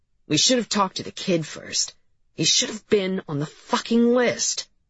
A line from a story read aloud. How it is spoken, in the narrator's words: said Cap through his teeth